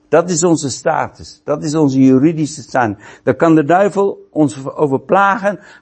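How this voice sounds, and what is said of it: Non-native accent in Dutch. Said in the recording (Dutch): “vanwege mijn accent, vanwege dat ik sommige dingen anders zeg dan wat jullie zeggen”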